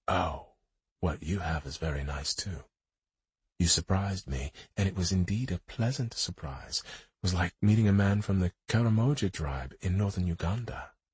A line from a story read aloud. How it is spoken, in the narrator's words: She whispered